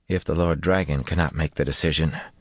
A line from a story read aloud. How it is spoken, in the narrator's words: Aram said quietly